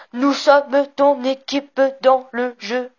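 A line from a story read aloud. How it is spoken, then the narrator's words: Robotic voice. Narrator (French): dit-il d'une voix robotique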